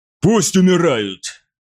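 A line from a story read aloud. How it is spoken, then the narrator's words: Snapping. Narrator (Russian): огрызнулся Хатхор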